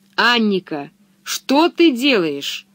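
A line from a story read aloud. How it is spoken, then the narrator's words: Stern. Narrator (Russian): строго сказала ей Пеппи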